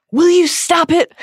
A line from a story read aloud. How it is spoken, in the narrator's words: she cried